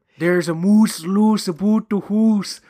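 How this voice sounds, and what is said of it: Put-on Canadian accent. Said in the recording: “A lot of fun with the Canadian lingo ... he liked my impression.”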